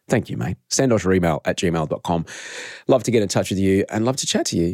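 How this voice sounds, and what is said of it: Hoarse voice. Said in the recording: “I'm a bit hoarse from the other night. I was screaming at the top of my lungs”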